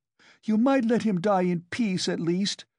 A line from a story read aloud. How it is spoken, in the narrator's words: she shouted